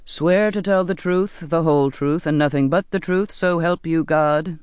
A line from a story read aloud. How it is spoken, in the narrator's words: the captain intoned